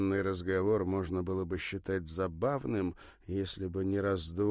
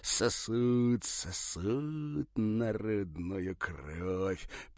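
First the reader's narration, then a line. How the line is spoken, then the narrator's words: Near hiss. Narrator (Russian): почти прошипел он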